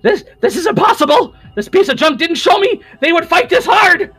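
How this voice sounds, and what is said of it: Very squeaky character voice. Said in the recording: “very squeaky voice”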